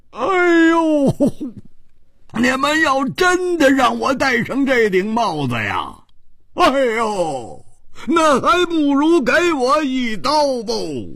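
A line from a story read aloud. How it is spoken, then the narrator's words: Loud cry. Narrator (Chinese): 胡铁花 大声地叫着说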